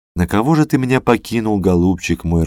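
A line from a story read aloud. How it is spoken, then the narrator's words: Grieving wail. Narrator (Russian): рыдала она, похоронив мужа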